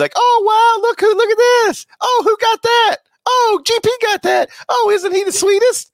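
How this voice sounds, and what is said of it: Imitates other people's voices. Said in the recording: “that impression. No, that was an impression of other people witnessing”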